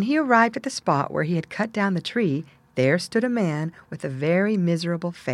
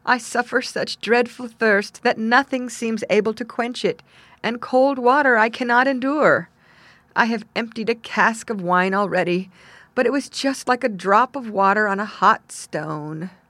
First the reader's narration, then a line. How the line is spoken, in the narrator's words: he exclaimed